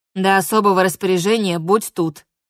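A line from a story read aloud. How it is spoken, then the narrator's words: Plain. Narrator (Russian): ответила Алура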